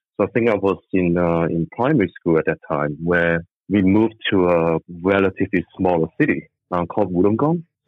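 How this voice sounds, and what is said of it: Hong Kong accent. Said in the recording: “I was born in Hong Kong, as some of you could tell from the accent.”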